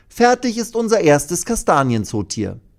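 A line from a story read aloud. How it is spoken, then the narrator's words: Calling, beaming. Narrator (German): ruft sie und strahlt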